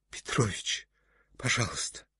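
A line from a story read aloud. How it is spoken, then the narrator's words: Pleading. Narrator (Russian): говорил Акакий Акакиевич умоляющим голосом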